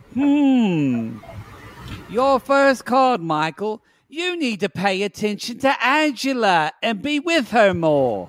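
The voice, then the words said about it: Weird put-on British or South African accent. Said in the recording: “I'm not sure she's British or South African... she has a uh, weird accent... so that's why I'm purposely doing it weird.”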